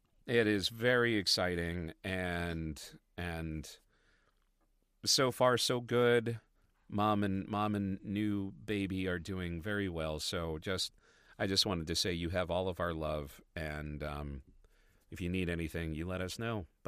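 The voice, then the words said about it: Congested voice from a cold. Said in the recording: “as you could probably hear in my voice, I am also getting over yet another cold”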